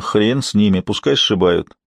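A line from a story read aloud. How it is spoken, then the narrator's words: Calm reply. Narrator (Russian): отвечал совершенно спокойно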